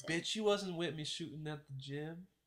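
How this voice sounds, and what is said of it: Badly done put-on accent. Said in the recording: “That's a horrible black accent. ... That's Drake.”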